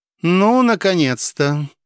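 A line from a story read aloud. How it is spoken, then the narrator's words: Cooing call from porch. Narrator (Russian): проворковала с крыльца небольшого сруба Пелагея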